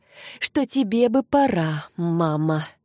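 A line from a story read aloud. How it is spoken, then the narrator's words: Heavy sigh. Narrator (Russian): Она тяжело вздохнула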